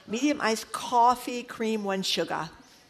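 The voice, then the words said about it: Boston accent. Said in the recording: “my usually suppressed Boston accent comes out when I order at the Dunkin' drive-thru ... That was pretty good by you.”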